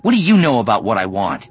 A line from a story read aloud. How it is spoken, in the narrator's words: Ben snapped